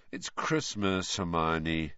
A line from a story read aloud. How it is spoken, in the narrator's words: said Harry lazily